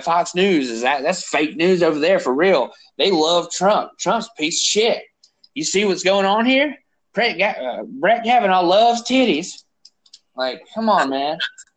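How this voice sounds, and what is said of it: Put-on redneck accent. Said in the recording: “I don't know why I'm doing a redneck voice. ... I don't know why I'm doing a, a redneck voice.”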